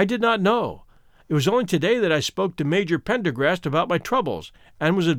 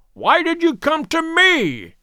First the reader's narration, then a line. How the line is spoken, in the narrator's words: he cried